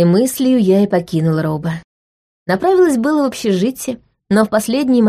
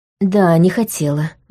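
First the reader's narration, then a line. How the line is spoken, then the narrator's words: Sighing. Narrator (Russian): вздохнула я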